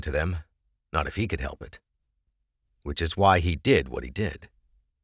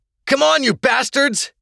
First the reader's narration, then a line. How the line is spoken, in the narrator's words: yelled